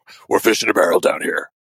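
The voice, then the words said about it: Imitates a Batman-style voice. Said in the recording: “most Batman voice... trying to channel Bruce Wayne”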